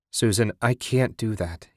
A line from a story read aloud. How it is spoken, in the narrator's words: said